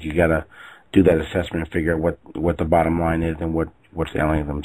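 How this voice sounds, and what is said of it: Voice not sounding its best. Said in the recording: “I apologize for my voice. Hopefully next week I'll sound a little bit better.”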